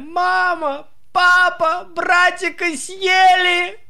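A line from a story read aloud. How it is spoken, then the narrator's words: Nonstop shouting. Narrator (Russian): он кричал, не переставая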